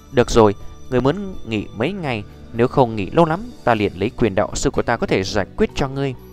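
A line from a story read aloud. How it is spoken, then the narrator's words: Gentle speech. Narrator (Vietnamese): Nhược Lâm đạo sư ôn nhu nói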